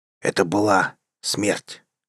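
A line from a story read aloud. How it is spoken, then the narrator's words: Muttering. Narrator (Russian): Стрэджест пробормотал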